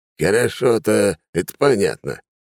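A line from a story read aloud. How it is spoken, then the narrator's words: Snorted. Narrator (Russian): хмыкнул Хрулев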